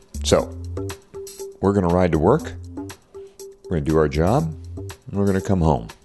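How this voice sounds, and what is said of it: Hushed, quiet speaking voice. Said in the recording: “a hushed voice? ... I'm talking in a hushed voice because, well, my wife's still asleep and I don't want to wake her up.”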